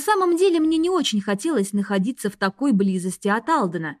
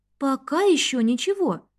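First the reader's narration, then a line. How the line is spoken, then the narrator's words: Timid reply. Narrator (Russian): робко ответила я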